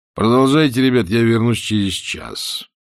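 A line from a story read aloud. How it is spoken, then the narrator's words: Thoughtful. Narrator (Russian): задумчиво, сказал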